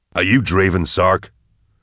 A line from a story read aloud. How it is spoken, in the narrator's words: Nail asked sternly